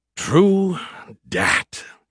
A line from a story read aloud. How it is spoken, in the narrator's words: he sighed